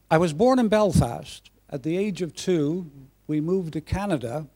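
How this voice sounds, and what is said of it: Mixed Irish and North American accent. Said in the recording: “my accent ... people often, when they hear me, they're thinking to themselves, where on earth does that guy come from ... you'll hear the Irish ... the Canadian or North American”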